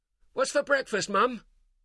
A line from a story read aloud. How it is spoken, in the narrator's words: Tyler called out